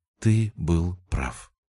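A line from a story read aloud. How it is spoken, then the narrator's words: Quiet. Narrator (Russian): тихо произнесла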